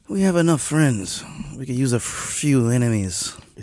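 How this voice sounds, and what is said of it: Mafioso-style Italian American voice. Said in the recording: “put on a little mafioso voice ... Italian American thing”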